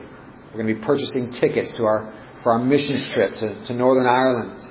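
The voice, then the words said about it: Put-on Irish accent. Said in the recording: “I kind of said that with an Irish accent, didn't I?”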